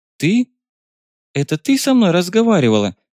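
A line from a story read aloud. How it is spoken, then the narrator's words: Confused question. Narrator (Russian): растерянно спросила Фаера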